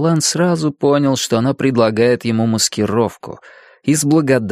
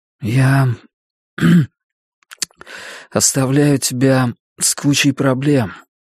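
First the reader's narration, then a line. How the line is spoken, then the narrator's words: Hoarse voice. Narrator (Russian): охрипшим голосом сказал он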